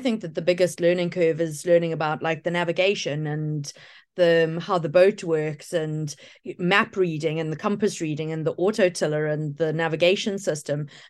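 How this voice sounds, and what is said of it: Australian accent. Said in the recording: “why does everybody speak with an Australian accent?”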